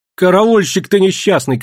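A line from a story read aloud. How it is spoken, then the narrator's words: Shouting. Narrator (Russian): кричала Дуняша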